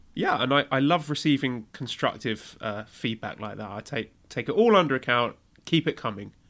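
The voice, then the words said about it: Sarcastic delivery. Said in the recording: “I was being sarcastic.”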